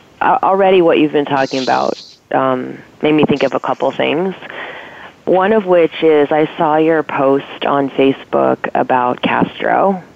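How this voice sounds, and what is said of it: Congested voice from a cold. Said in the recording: “you sound like you have a cold ... mostly just a cold ... I'm just getting over it”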